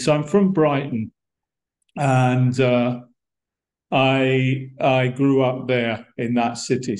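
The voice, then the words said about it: London-like English accent. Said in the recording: “my accent, it's very Brighton ... the accent in Brighton is pretty much the same as maybe a little bit different, but more or less the same as”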